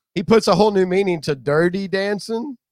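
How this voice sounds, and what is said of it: Imitates another person's voice. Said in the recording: “Impersonation.”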